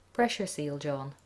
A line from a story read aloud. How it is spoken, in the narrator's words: it said